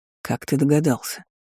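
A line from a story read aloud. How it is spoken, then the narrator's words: Quiet question. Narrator (Russian): тихо спросил Даррен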